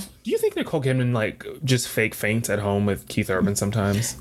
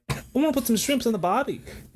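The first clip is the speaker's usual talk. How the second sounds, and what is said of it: Poor put-on Australian accent. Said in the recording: “your Australian accent ... No, it had like a Rosie Perez vibe. It went... Way south.”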